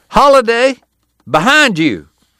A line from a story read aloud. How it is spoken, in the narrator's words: Someone shouted